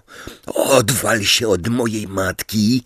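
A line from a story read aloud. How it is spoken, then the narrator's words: Growled. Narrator (Polish): warknął Simius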